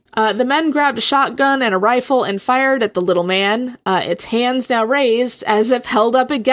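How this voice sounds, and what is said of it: Usual voice. Nothing is said of it.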